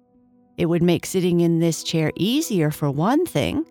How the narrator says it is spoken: Luna laughed

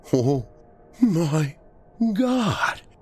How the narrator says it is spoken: Alex wheezed

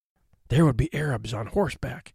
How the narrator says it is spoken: he whispered

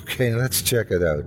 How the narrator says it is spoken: I said with a giggle

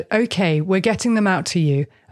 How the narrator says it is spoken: Murdaugh replied

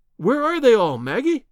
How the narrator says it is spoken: I cried

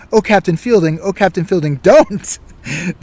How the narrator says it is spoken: Mackenzie exclaimed

